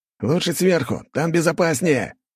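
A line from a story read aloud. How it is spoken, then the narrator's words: Shouting back. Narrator (Russian): прокричал в ответ Керс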